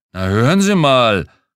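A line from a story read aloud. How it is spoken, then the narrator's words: Blustering fat man. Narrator (German): polterte der Fettkopf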